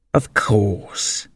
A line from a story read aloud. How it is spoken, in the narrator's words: the dodo replied very gravely